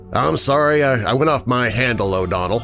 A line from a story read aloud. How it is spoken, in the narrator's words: said